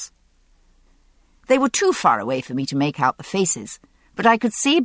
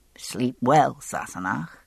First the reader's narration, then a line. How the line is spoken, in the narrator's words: he muttered